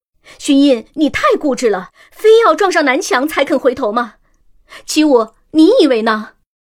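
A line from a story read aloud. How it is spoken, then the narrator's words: Exasperated, angry. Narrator (Chinese): 此时真金已显得有些气急，嗔怒道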